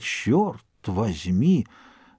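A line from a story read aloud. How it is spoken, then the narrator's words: Astonished old man's mutter. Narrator (Russian): Старик слегка свистнул от изумления и только пробормотал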